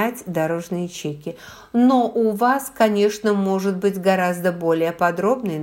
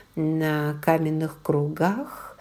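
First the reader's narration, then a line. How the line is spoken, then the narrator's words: Soft question. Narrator (Russian): мягко спросила Клэр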